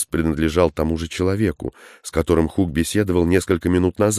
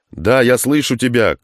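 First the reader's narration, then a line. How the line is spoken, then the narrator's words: Shouting into microphone. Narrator (Russian): крикнул в микрофон Хук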